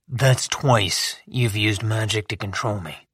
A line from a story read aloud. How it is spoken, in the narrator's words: I said quietly